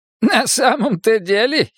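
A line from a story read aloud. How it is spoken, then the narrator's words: Giggling. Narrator (Russian): хихикнул поэт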